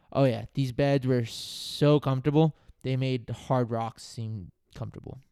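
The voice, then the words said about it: Sarcastic delivery. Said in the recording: “It was sarcasm.”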